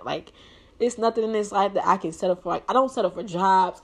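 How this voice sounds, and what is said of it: Emotional, near-tearful voice. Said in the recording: “I'm getting all emotional... I'm a crybaby... I'm emotional. I'm really emotional.”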